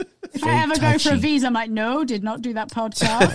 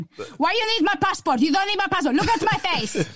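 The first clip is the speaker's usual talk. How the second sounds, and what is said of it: Put-on Portuguese accent, older woman. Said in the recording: “I'll just do my mum's accent ... Why does she sound just like an old soul? ... playing a Portuguese cleaner ... I basically did my mum”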